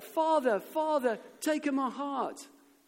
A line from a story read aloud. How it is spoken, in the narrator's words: shouted